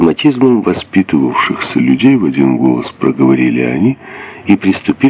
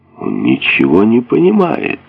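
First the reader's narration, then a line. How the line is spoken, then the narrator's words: Indignant exclamation. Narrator (Russian): возмущенно воскликнул один из сопровождавших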